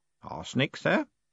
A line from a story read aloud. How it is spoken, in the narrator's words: said Groat calmly